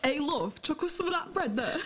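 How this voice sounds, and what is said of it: Put-on Bolton accent. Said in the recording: “Do they have accents? ... do you reckon, like, the pigeons in Bolton have the same accent as me?”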